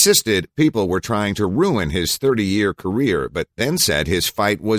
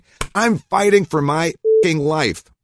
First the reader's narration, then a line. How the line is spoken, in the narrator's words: He cried as he hit his hands together, saying